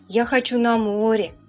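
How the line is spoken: Plain child's voice. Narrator (Russian): ответил мальчик

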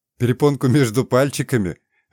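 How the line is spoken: Water spirit's wife laughing. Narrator (Russian): рассмеялась жена водяного

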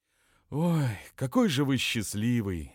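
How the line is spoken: Sighing. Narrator (Russian): вздохнул Безюка

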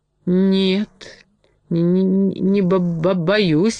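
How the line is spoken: Trembling mutter. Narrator (Russian): дрожащим голосом пробормотал медведь

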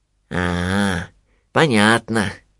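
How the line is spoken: Thoughtful drawl. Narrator (Russian): задумчиво протянул Винни

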